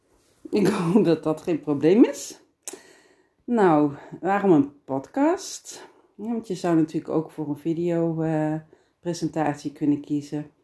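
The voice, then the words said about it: Brabant Dutch accent, soft G. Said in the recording (Dutch): “ik ben Brabantse, geboren en getogen in Geelse ... ik denk dat jullie al wel gehoord hadden dat ik een Brabantse accent had. In ieder geval een zachte G.”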